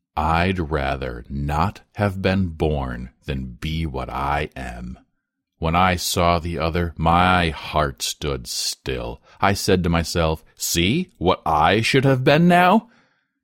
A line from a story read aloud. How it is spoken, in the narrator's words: the boy said roughly